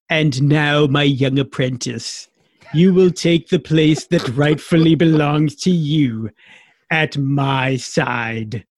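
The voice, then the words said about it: Good impression of Palpatine's voice. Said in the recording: “That was actually a really good impression.”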